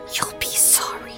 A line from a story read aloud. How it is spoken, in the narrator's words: under his breath, so low it was barely audible